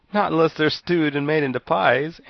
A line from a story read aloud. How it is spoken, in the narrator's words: answered the boy, laughing